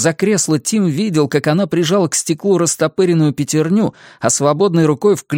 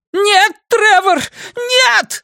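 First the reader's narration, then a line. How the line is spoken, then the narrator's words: Screamed. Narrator (Russian): завопила миссис Сигсби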